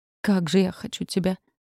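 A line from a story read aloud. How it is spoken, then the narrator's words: Breathy, passionate. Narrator (Russian): выдохнул Калашников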